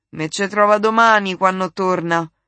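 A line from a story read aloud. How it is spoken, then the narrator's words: Grumbling to oneself. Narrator (Italian): brontolò tra sé Sor Adele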